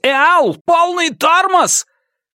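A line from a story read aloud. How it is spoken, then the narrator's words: Shouting, voice returning. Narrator (Russian): к нему вернулся голос, и он крикнул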